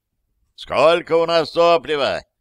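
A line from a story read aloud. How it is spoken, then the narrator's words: Shouted into ear. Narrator (Russian): прокричал я в ухо рыжему немцу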